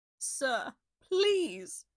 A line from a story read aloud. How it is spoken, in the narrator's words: begged, in an act of desperation